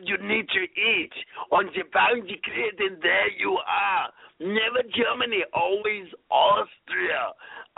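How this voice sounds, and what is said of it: Arnold Schwarzenegger impression, heavy Austrian accent. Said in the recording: “he had such a serious accent back then ... I'm Arnold Schwarzenegger”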